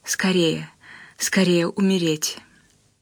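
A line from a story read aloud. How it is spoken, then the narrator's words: Silent prayerful whisper. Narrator (Russian): Она мысленно зашептала, как молитву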